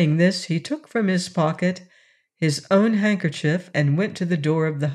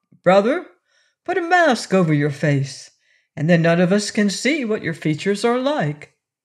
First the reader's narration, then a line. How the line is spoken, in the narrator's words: exclaimed Shaggy joyfully